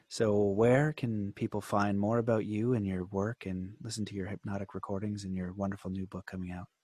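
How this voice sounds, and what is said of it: Soothing hypnosis-style voice. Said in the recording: “let me try my hypnosis voice ... That was very good, man.”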